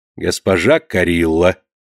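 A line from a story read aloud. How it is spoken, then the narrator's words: Canon interrupting, dry mocking cold. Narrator (Russian): прервал ее каноник тем сухим, насмешливо-холодным тоном, каким он прежде говорил госпожа Бригитта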